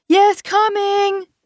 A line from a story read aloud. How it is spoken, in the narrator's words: I shouted, feeling horrible, like a naughty child being berated